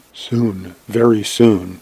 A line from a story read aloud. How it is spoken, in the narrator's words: He smiled back, whispering